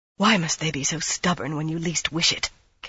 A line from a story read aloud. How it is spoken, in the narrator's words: Caroline whispered in tones of frustration